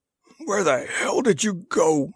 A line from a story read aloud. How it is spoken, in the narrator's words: snarled Breska